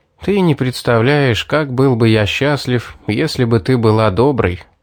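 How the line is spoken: Sighing. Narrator (Russian): вздохнул я

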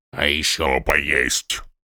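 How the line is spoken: Grumbling. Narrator (Russian): проворчал сопровождающий чародеев Брокс

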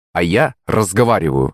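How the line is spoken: Sharp retort. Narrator (Russian): резко ответил я

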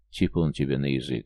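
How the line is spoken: Grumble. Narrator (Russian): буркнул Барбок

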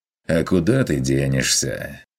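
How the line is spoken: Snorting. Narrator (Russian): хмыкнул охотник

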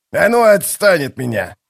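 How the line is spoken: Growl. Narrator (Russian): зарычал он

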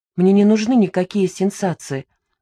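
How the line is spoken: Calm. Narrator (Russian): ответила спокойно

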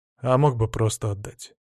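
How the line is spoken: Sighing. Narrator (Russian): вздохнул

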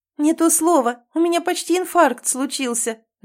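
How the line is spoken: Laughing complaint. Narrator (Russian): жалуюсь, смеясь

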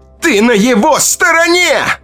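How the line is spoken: Shout. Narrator (Russian): крикнула Ита

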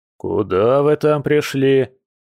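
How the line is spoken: Impatient grumble. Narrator (Russian): проворчал Илья Николаевич, явно теряя терпение

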